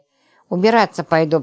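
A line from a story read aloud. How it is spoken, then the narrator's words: Mumbled. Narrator (Russian): промямлила она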